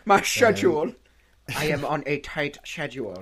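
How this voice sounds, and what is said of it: Exaggerated German-style villain accent. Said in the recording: “that ridiculous accent. I think it's great, but it is ridiculous. He based it on Werner Herzog.”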